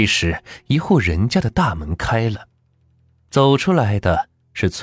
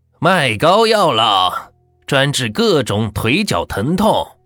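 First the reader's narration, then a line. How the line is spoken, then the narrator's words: Loud hawking cry. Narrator (Chinese): 叫赤川的医生，声音是洪亮的叫卖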